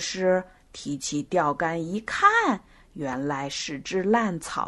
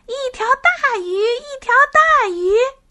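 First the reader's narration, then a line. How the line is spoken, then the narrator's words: Excited shout. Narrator (Chinese): 就大喊起来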